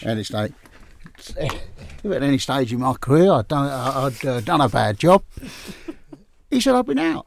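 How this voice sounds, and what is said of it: Imitated Australian accent. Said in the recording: “because I come from Australia... I'll do the accent if you want to do it.”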